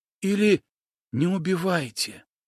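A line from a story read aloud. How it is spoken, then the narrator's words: Youth's sudden whisper. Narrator (Russian): неожиданно прошептал отрок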